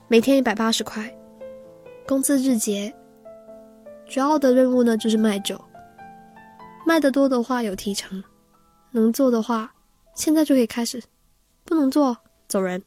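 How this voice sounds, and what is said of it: Heavily accented Mandarin. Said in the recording (Chinese): “他用口音浓重的普通话对我说”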